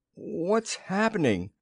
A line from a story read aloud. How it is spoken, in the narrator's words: groaned Arch